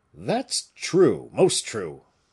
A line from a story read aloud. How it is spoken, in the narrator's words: exclaimed both friends together